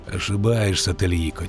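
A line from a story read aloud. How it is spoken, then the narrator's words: Quiet. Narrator (Russian): тихо сказал ведьмак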